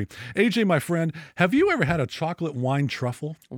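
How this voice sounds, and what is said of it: Over-the-top announcer-style delivery. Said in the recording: “Am I being too much like an announcer or something? ... A little bit.”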